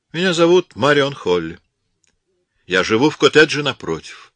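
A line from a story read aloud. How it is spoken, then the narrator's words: Cold reply. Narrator (Russian): холодно ответила Марион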